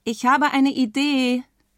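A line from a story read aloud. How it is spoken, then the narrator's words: Called out. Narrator (German): ruft Konradin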